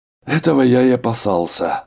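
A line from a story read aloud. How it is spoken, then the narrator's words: Sighing. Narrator (Russian): вздохнул Арнольд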